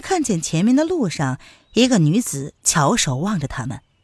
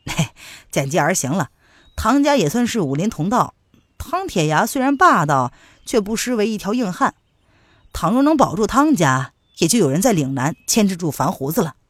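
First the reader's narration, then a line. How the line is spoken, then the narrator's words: Slight smile. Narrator (Chinese): 娄迪飞微微一笑说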